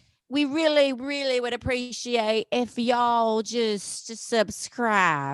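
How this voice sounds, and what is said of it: Usual voice. Nothing is said of it.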